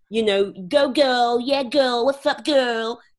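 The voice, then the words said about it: Exaggerated high-pitched American accent. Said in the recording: “speak in a false high American accent ... that's a terrible impression”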